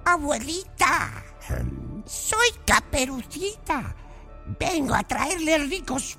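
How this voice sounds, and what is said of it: Wolf imitating a little girl's voice. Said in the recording (Spanish): “imitando la voz de Caperucita”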